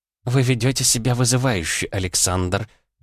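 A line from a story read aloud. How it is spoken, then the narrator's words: Said through teeth. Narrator (Russian): процедила Мария Федоровна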